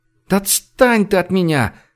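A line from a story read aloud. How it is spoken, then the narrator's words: Pleading. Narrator (Russian): взмолилась Женя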